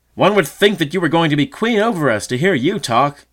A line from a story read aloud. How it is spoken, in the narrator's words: exclaimed the disputants